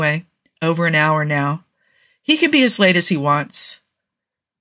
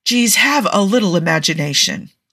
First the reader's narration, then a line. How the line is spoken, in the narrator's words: Tony says with a sigh of exasperation